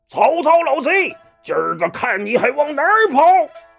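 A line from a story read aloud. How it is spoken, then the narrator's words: Mighty warrior's roar. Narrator (Chinese): 为首一员大将一声大吼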